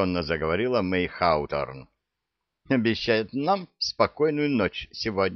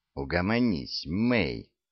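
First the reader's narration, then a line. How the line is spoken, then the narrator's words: Calm. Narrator (Russian): спокойно произнесла Джун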